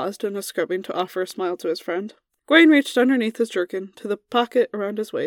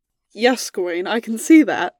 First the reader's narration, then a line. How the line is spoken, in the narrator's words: Merlin laughed